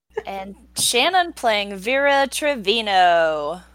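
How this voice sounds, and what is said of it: Announcer voice. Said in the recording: “That's the best announcer voice I can get.”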